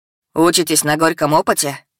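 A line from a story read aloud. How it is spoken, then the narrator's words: Father laughing loudly. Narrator (Russian): Отец захохотал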